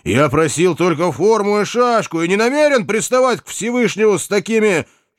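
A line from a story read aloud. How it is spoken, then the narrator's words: Confused, faltering. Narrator (Russian): окончательно запутался Иван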